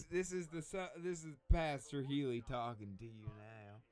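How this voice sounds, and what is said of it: Put-on Southern preacher accent. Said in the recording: “It is definitely a Southern accent.”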